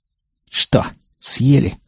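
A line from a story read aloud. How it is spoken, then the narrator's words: Smug snort. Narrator (Russian): хмыкнул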